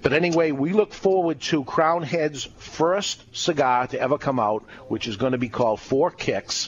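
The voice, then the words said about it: Strong Boston accent. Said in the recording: “terrible Boston accent, real strong”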